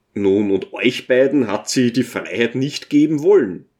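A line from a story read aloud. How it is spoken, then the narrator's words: Plain question. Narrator (German): fragte jemand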